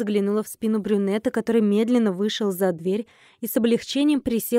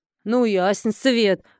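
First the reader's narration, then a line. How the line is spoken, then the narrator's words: Snorting. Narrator (Russian): хмыкнула Тася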